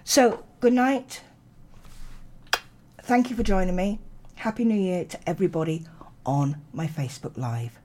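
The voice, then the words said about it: Tired, strained voice. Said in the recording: “My voice is starting to go”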